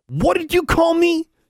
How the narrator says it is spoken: he yelled

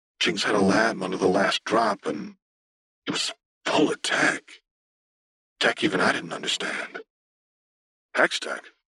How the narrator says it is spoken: Bellamy asked, his voice low with awe

